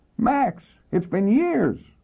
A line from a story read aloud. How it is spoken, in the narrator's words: She squealed